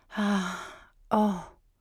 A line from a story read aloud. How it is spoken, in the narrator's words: she panted